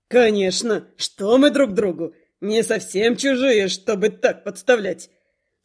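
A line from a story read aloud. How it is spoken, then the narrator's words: Bawdy chuckle. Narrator (Russian): Скабрёзно хохотнул Старх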